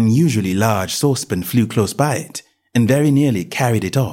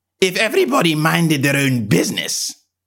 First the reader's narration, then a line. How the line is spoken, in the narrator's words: the Duchess said in a hoarse growl